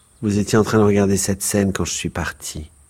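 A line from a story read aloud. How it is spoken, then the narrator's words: Calm. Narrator (French): dit-elle calmement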